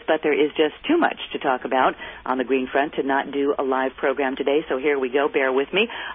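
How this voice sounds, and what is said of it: Froggy, hoarse voice. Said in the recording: “froggy voice, getting over a cold and touch of laryngitis”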